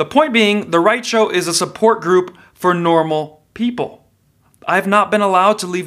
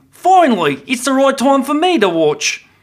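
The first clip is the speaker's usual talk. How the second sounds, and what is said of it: Unidentified put-on accent. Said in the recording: “I don't know what accent that was.”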